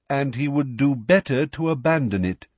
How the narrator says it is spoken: said Ferenczi

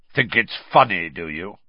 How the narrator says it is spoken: he growled

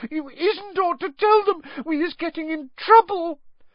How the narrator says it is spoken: sobbed through her hands

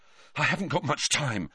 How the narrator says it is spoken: Harry panted

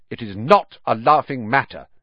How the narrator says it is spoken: said coldly

